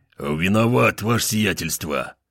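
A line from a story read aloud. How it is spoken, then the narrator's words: Muffled mutter. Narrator (Russian): Глухо пробормотал он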